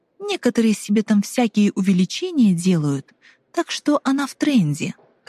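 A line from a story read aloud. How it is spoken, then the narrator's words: Plain. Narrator (Russian): как говорит Азалия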